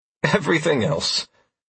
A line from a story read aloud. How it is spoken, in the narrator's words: I replied with a reassuring laugh